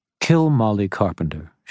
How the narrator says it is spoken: she said calmly

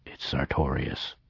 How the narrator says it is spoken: he murmured after a short pause

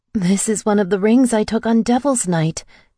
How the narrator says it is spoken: I said, my voice shaking

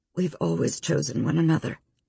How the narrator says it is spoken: Kate said softly

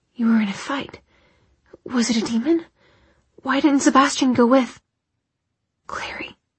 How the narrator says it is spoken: Jace's voice was barely a whisper

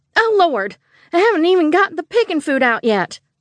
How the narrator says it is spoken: Scarlet yelped

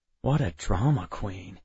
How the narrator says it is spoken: I muttered, though I did feel a little bad for him

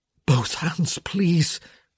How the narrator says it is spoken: he begged

